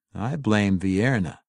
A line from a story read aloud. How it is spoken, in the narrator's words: Jarlaxle said calmly